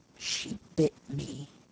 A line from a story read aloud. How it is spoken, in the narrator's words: murmured